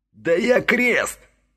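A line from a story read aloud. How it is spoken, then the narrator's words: Angry, helpless shout. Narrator (Russian): злобно и беспомощно закричал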